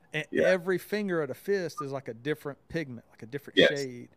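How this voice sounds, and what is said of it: Southern US accent. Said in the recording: “just hearing my accent, like I grew up in the South”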